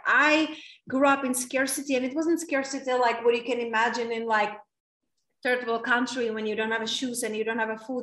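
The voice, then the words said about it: Czech accent. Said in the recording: “my accent. It's from very small town in Czech Republic”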